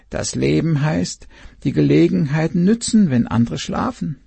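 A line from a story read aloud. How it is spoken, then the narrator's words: Owl's croak. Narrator (German): krächzte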